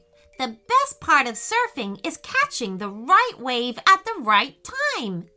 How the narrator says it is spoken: exclaimed Payton

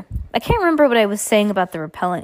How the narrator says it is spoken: said a little crossly

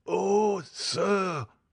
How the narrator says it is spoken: cried Barrois

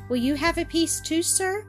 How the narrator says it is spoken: asking timidly

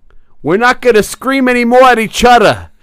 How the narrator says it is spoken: he yells at Misquamicus

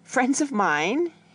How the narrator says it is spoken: he laughed

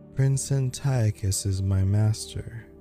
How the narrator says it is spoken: said in a dead voice

